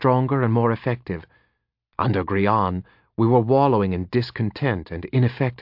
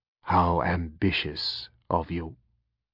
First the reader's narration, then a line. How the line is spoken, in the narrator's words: he said softly